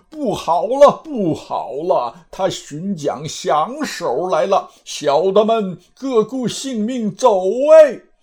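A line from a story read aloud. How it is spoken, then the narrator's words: Panicked panting cries. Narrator (Chinese): 呼呼吼吼，喘喘呵呵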